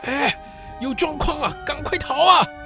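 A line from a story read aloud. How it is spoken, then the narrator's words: Shouting to men. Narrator (Chinese): 布雷萨克向监视着西里修斯和保镖的三个手下喊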